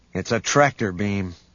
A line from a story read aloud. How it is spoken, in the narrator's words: Han said